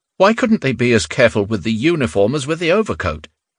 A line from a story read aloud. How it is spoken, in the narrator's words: he asked indignantly